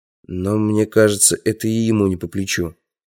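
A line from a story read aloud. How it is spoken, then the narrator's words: Mumbling. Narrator (Russian): пробормотал я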